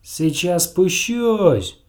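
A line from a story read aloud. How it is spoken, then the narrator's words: Shouted downward. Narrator (Russian): крикнул он вниз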